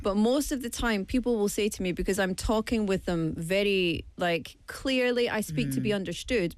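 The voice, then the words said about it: Scottish accent. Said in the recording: “I know that both of you can hear my accent and tell that I'm from Scotland ... 100%”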